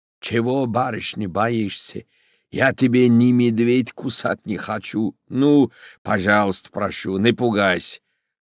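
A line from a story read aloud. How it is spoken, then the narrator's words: Hoarse voice. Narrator (Russian): услыхал хриплый голос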